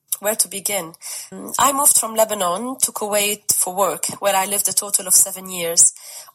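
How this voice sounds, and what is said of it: Beautiful voice with an accent. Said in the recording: “just for the accent in this story. What a beautiful voice.”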